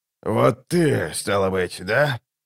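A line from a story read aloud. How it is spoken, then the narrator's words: Hoarse question. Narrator (Russian): хрипло спросил прибывший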